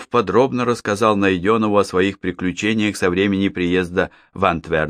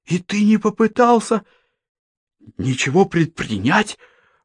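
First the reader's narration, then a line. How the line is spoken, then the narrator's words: Heated exclamation. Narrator (Russian): с жаром воскликнул Житков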